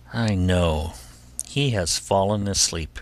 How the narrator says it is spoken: she said to herself, sighing

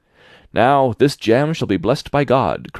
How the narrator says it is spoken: cried the little tailor

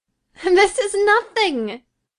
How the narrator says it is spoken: cried she

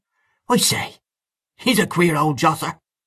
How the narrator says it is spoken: Mahony exclaimed again

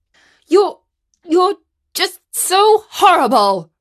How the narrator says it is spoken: stuttered Katie

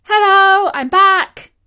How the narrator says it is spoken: she called out

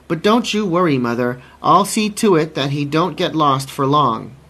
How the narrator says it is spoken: she cried

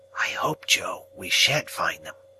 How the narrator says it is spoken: treasonably whispered to Joe

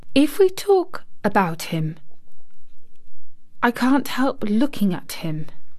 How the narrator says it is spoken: Mary said, as softly as possible

